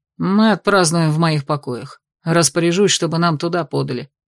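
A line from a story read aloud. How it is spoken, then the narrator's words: Grumbling. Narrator (Russian): ворчал Итан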